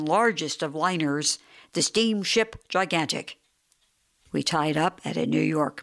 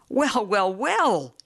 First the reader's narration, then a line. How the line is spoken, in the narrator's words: he cried